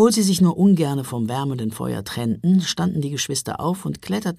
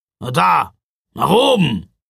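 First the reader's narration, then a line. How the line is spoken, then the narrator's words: Growled. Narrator (German): knurrte Ruprecht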